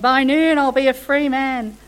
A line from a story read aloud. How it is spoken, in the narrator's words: Earlier I'd been yelling